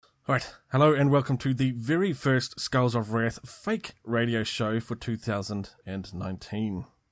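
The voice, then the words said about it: New Zealand accent. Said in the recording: “recorded in the bells of New Zealand's South Island ... if the topic, accent, or geographical location is a little bit too much for you to handle”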